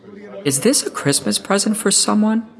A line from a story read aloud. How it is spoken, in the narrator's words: asked kindly